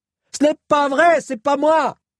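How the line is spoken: Shrill yelping. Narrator (French): glapiquait-elle

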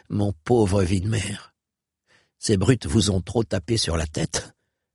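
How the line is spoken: Sneering laugh. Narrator (French): ricana-t-il

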